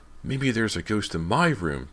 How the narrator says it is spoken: James exclaimed excitedly

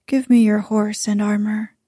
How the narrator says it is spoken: said Sir Gawain

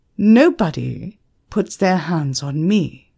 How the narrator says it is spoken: said firmly

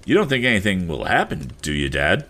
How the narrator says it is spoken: asked his son with a laugh, but it was not an easy one, for the lad was thinking of the shadowy forms of the ugly sharks

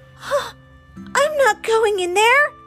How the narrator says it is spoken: squeaked Theo

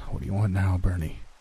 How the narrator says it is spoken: I asked with a heavy sigh

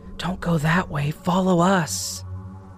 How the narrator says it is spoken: The voices whispering

